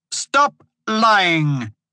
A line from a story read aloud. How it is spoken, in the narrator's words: She yelled at him